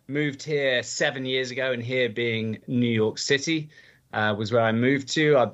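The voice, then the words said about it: English accent. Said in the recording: “my accent is from England ... very much a British guy”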